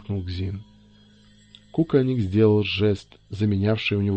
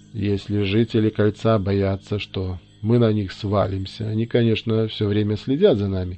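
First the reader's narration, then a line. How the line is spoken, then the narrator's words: Calm explanation. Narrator (Russian): спокойно объяснила она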